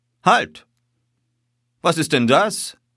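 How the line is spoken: Sudden shout. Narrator (German): rief er plötzlich

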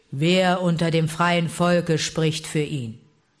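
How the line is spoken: Growled. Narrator (German): Balu ... knurrte

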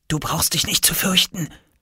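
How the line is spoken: Whisper. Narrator (German): flüsterte Oskar

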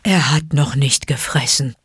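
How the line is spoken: Relieved grunt. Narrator (German): grunzte Balu erleichtert

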